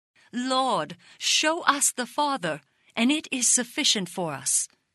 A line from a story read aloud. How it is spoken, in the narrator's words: exclaimed Philip